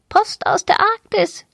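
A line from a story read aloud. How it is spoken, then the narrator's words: Small parrot croaking. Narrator (German): krächzte der kleine Papagei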